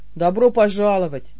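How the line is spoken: Gloomy grumble. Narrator (Russian): мрачно буркнул Бер

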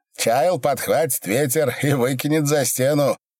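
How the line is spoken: Silent laughter. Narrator (Russian): беззвучно хохотал Митька

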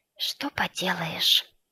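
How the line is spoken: Whispered. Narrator (Russian): произнесла она шепотом

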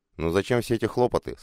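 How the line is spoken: Embarrassed mumble. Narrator (Russian): смущенно пробормотал Бобриков

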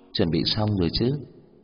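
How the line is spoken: Smiling, inwardly fearful. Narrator (Vietnamese): Dung Ân mỉm cười, nhưng trong lòng có sự sợ hãi không nguôi

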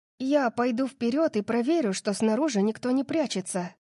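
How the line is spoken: Plain. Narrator (Russian): сказала она

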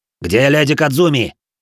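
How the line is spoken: Two samurai shouting almost together. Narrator (Russian): чуть ли не хором выкрикнули оба самурая

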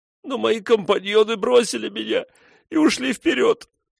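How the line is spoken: Sobbing plea for pity. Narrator (Russian): всхлипнул он, казалось, взывая к ее жалости

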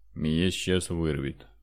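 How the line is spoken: Suffering voice. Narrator (Russian): страдающим голосом сообщил Федор

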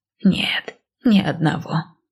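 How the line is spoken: Quiet elderly woman. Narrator (Russian): тихо ответила старушка

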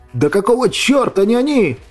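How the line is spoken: Shouting, losing control. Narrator (Russian): закричал сорвавшись Иван

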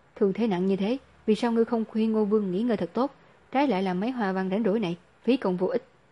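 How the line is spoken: Very angry. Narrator (Vietnamese): Nhiếp Cảnh vô cùng tức giận

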